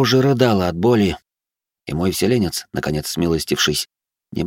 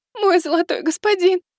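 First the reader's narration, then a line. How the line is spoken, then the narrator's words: Tearful, fearful complaint. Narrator (Russian): Плачущим голосом пожаловалась Астелла, с нескрываемым страхом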